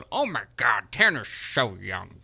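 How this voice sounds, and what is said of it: Imitates another person's voice. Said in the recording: “That is an actual impersonation of me.”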